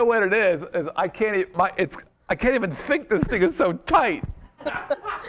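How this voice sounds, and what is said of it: Usual voice. Nothing is said of it.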